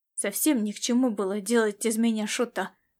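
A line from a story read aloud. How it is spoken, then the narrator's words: Grumbled in thought. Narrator (Russian): мысленно буркнул Ласло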